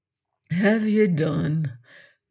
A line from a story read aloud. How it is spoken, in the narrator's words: quoth Blood quietly